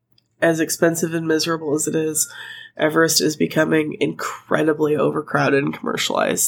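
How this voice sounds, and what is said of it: Strained, fading voice. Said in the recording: “I'm so sorry. My voice is going.”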